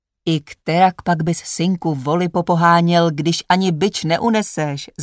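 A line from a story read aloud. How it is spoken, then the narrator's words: Father laughing. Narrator (Czech): zasmál se mu otec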